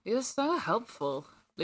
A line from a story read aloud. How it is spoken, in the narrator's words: Luke mumbled